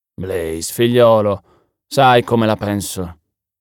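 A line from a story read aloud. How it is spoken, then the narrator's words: Wearier tone. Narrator (Italian): disse lui, con tono più stanco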